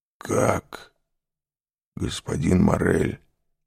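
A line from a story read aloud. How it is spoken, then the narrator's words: Strained, choked voice. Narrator (Russian): сказал он сдавленным голосом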